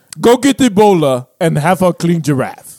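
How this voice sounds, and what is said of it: Put-on African accent. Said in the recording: “Can you like ixnay the African accent? ... That's a pretty good one. ... No, he's trash. ... That shit's trash.”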